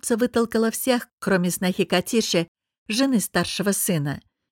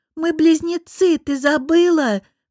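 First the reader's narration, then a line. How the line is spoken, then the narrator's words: Shouting through a gap. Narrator (Russian): прокричала она в щель, оставленную топором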